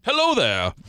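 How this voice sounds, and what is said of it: Southern Baptist father character voice. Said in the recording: “played the part of my Southern Baptist father. Could you give me that voice again? ... Perfect. ... Nailed it. ... Totally nailed it on the first try.”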